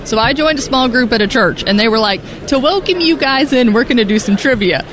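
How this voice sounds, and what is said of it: Memphis Southern accent. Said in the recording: “they've got a different kind of accent, and my accent has been called out multiple times ... Oh, figures you're from Memphis ... I didn't think it was that noticeable, but apparently it is.”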